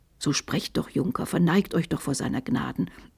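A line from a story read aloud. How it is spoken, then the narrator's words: Dejected murmur. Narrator (German): murmelte Magister Onno bedrückt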